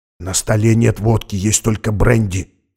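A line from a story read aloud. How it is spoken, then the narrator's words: Whisper after a pause. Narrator (Russian): прошептал Макс через секунду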